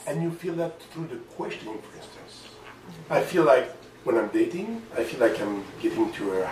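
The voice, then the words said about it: French accent. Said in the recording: “maybe you got it in the accent, I'm from France”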